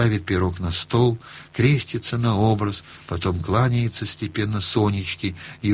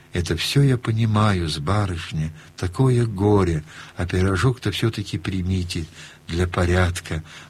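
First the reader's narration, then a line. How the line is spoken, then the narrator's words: Gentle, sedate. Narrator (Russian): тогда он говорит ласково и степенно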